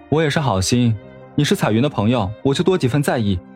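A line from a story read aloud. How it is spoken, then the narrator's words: Restrained anger, faint smile. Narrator (Chinese): 沈长勋忍着气也淡淡的笑了笑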